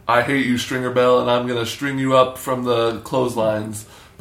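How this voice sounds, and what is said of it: British actor's put-on American accent. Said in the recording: “Best British actor doing an American actor voice. British actor doing an American accent.”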